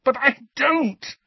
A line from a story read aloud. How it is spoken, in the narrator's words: said Harry in a strangled voice